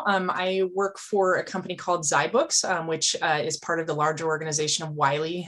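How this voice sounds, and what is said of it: Northern Wisconsin regional accent. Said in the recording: “from northern Wisconsin, where I live, where you can probably hear that in my voice.”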